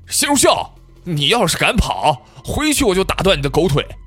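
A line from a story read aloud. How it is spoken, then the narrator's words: Roaring shout. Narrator (Chinese): 那人又大吼了一声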